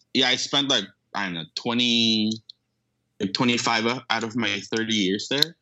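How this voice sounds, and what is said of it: Filipino accent. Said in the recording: “is your accent more Filipino? ... I guess so because I was born and raised in the Philippines”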